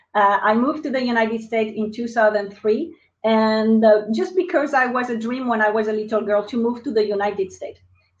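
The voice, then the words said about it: French accent. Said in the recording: “they will probably notice my accent. So I'm French.”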